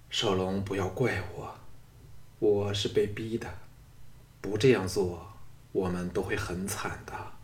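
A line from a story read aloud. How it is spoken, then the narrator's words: Sighing murmur. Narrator (Chinese): 雅夫人悠悠一叹，喃喃地说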